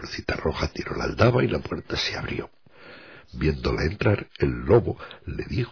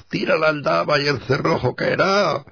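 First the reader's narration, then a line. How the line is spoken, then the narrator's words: Wolf's softened shout. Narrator (Spanish): el lobo le gritó, suavizando un poco la voz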